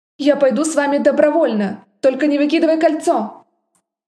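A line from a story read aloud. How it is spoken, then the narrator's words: Roaring. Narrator (Russian): Взревел он, стоило мне только замахнуться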